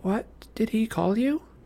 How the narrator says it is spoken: Bianca muttered

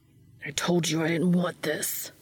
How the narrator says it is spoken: Dean hissed, unable to keep the irritability from accentuating every word

